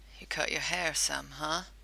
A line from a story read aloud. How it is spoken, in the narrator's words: It hurt to chuckle softly, and Dean winced